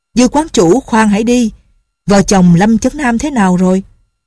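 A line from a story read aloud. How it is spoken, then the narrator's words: Loud voice. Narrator (Vietnamese): lớn tiếng nói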